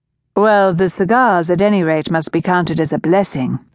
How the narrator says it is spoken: Renzo said teasingly

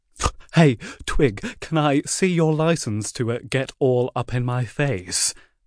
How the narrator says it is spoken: one kid laughed

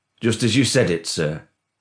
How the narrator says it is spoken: answered Carter, his grin never faltering

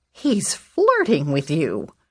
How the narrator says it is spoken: my grandmother exclaimed

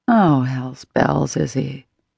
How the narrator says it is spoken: muttered under my breath

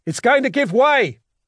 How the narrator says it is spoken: yelled

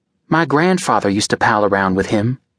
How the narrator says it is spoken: Kate said

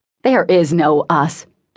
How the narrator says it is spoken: Thomas spat

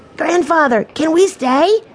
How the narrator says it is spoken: Benny asked eagerly

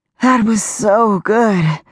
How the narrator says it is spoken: said, panting as she worked to catch her breath

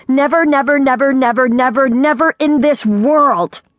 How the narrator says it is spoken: Her scream, magnificent though it was

